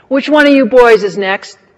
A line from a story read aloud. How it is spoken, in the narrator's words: Maud roared